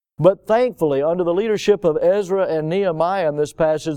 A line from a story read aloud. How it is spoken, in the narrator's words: they cried and said